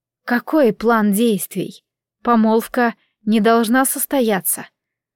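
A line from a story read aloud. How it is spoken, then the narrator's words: Calm question. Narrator (Russian): спокойным тоном поинтересовалась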